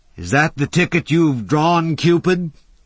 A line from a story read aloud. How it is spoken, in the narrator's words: he shouted